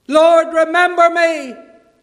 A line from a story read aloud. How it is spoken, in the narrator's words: he cried out